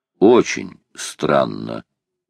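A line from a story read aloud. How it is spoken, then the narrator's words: Officer muttering. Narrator (Russian): пробормотал майор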